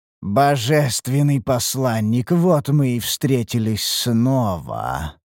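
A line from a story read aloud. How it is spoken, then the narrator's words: Cold alien boy's voice. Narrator (Russian): заявил мальчик холодным чужеродным голосом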